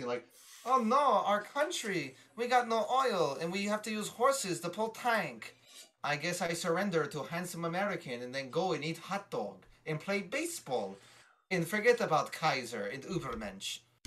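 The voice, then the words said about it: Put-on German accent. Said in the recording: “Is your German accent requires some work”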